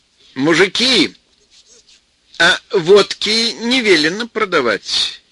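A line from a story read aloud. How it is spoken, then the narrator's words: Sly, deliberately loud. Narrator (Russian): хитрая Галя нарочно сказала это громко, чтобы сразу все слышали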